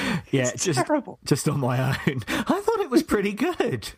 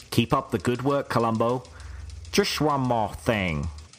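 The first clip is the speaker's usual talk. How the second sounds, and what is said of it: Poor impression of detective character. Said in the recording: “that's the worst Colombo accent I've ever heard... impression thing”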